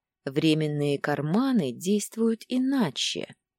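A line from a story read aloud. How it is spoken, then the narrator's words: Contented purr. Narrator (Russian): довольно мурлыкнул Дагейра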